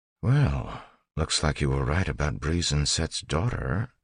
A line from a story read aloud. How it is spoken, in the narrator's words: Ellen whispered